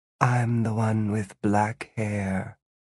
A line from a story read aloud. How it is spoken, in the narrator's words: The black-haired Gwen purred